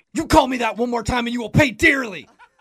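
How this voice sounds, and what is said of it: Yelling. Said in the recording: “You just yelled at me again.”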